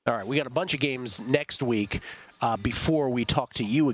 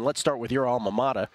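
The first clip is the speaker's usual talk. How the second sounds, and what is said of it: Put-on northeastern US accent. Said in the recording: “That was a good little northeastern accent.”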